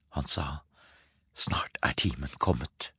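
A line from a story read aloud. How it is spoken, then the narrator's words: Whispered. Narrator (Norwegian): hvisket Sofia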